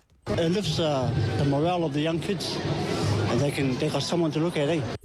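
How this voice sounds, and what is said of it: New Zealand accent. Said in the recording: “Here's our New Zealand accent from Tokoroa this time, a Tokoroa League fan.”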